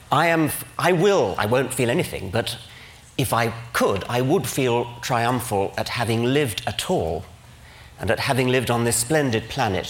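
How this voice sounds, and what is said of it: English accent. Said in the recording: “my quaint English accent”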